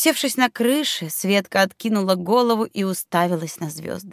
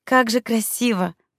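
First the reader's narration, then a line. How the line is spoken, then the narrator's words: Breathless. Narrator (Russian): выдохнула Светка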